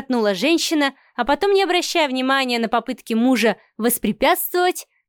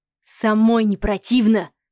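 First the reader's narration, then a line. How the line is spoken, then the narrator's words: Growling. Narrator (Russian): прорычал Савелий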